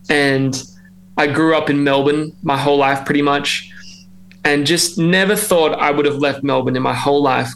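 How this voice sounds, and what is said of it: Australian accent. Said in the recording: “I hope you can tell I'm Australian. I'm trying to keep that accent”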